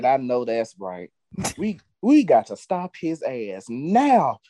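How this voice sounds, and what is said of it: Imitates another person's voice. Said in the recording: “in my Maxine Waters voice”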